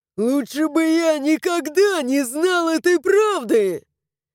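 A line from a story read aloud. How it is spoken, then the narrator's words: Shouting. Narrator (Russian): Закричал он, вскочив с кресла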